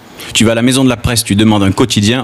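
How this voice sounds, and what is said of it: Southern French accent from the Gard. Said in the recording (French): “Ah mais toi tu as l'accent du Gard ... Quand je parle avec mon accent, à Marseille, on me prend pour un paysan”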